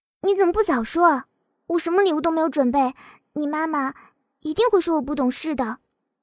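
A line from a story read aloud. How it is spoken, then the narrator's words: Nervous quiet complaint. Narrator (Chinese): 沈晓心砰砰的跳，都快到嗓子眼跳出来了，小声的抱怨道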